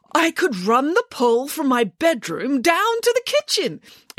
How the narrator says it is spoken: exclaimed Nanny Piggins

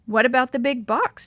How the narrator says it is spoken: Didi asked anxiously

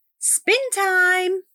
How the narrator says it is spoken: she cried

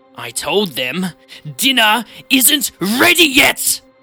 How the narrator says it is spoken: She shouts

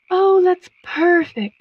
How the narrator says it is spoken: sighed the moth

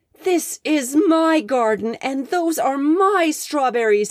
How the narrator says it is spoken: roared

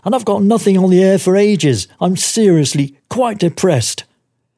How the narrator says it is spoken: he moans

